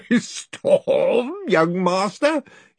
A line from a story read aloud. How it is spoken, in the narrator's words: he roared